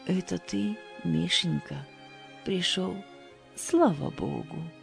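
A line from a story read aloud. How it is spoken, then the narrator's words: Old woman, affectionate. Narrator (Russian): Ласково заговорила старушка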